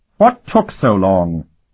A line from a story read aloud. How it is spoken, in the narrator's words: he snapped at the captain